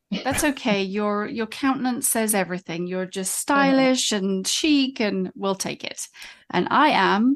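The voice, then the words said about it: Posh-sounding accent. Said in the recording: “An American that's like, wow, that accent sounds real posh.”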